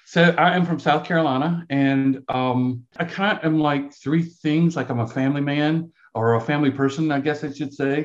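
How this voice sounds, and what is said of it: Southern US brogue accent. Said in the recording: “you might be able to tell from my accent. Like we call it a brogue down here. Brogue.”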